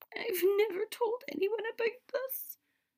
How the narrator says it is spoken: she said with a sob

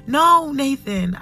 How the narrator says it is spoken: shout

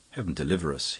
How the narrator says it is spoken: he muttered

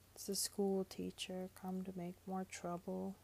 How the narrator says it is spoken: he said

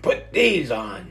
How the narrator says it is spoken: grunted the fisherman

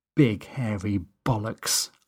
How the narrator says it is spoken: muttered

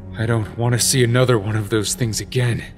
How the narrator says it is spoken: Link gasped, still catching his breath

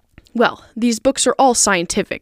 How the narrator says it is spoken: insisted Tom, glancing at her impatiently

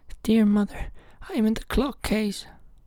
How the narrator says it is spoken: a soft voice cried

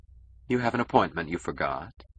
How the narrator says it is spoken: She asked, gently

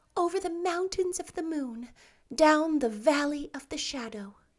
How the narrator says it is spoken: answered dreamily

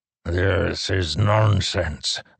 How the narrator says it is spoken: the pursuer growled

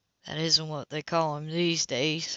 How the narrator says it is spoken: I said flatly

